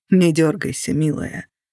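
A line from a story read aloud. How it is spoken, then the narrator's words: Quiet. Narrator (Russian): тихо сказал он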